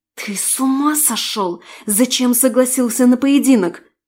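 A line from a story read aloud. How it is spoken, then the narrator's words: Hissing. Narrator (Russian): шипела я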